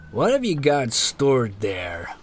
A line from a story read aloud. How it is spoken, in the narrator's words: went the slow Canadian drawl